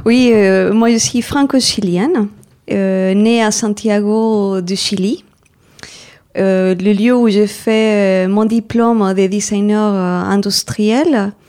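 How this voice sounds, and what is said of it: Non-native French accent, Chilean. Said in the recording (French): “à votre accent, on aura bien reconnu que vous n'êtes pas française à 100%”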